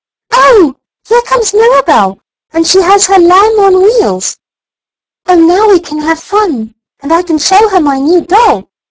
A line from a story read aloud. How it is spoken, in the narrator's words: Elsie gave a squeal of delight and cried